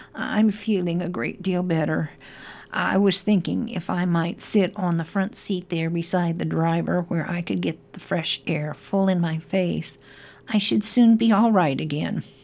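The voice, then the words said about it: Feeble voice. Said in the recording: “said Toad in a feeble voice.”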